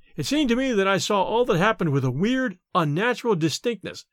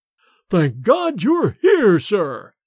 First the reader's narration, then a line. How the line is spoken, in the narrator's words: boomed forth in Bates's sepulchral voice